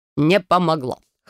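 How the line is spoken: Man's snort. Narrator (Russian): хмыкнул мужчина

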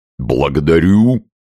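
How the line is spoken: Sing-song hum. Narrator (Russian): На песенный лад прогудел почтальон

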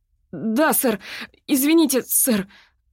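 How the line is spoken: Trembling voice, near tears. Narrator (Russian): ответил Стивен Кроутер дрожащим голосом, свидетельствовавшим о том, что он вот-вот расплачется

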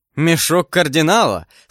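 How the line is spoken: Speaking with loud laughter. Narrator (Russian): сказал с хохотом Д'Артаньян

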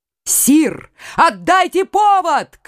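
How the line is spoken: Shouted. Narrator (Russian): крикнул Генрих Наварский

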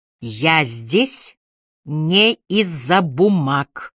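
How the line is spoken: Slow and loud. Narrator (Russian): Медленно и громко произнесла Эмили

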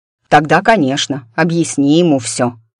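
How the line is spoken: Snorting chuckle. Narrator (Russian): хмыкнул Чарыр

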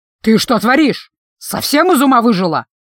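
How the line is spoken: Menacing growl. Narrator (Russian): грозно прорычал лидер группы, слегка насупившись

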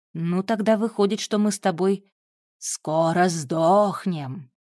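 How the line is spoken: Creaky, mimicking an imp. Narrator (Russian): пародируя анчутку, проскрипела Вика

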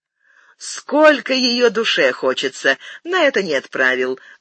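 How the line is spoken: Laughing. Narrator (Russian): засмеялась Акоги

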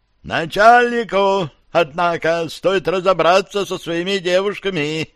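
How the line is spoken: Mocking squeak in thoughts. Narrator (Russian): пискнул насмешливо Таркашка в моих мыслях

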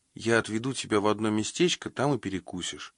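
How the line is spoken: Whisper. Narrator (Russian): прошептала Ильдика

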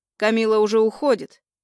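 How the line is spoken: Angry. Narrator (Russian): злобно добавляет

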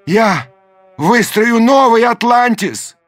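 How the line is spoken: Shouting after them. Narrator (Russian): крикнул им вслед Даймё

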